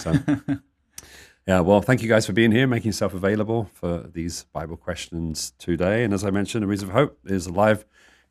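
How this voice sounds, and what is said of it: Deep, snuffly allergy voice. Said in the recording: “all feeling a little snuffly, so excuse our snuffles and voices ... my voice is very deep today”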